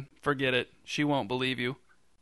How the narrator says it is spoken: whispered

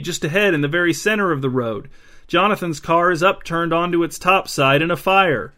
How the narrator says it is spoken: cried Nate

